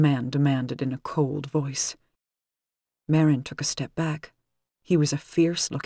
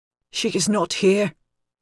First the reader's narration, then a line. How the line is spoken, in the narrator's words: gasped out